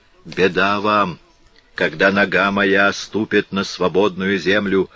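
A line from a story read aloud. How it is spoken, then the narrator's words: Gloomy mutter. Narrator (Russian): мрачно пробормотал он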